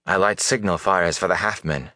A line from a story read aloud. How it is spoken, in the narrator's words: she said bitterly